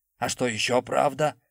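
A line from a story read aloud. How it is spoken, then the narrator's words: Angry growl. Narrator (Russian): зло прорычал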